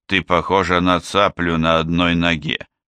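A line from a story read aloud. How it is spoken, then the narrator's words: Grumble. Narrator (Russian): проворчал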